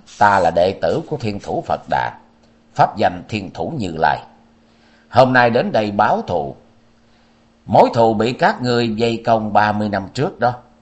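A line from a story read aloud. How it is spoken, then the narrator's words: Cold. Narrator (Vietnamese): Thanh niên lạnh lùng nói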